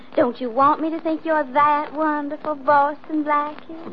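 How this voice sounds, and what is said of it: Speaks with a put-on accent. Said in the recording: “Do you have to like me with an accent?”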